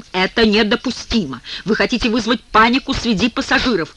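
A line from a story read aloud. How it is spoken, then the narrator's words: Irritated. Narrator (Russian): Он продолжает раздраженным тоном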